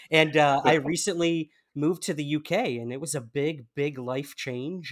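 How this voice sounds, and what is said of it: American accent. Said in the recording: “can't tell by my accent, I am from the United States.”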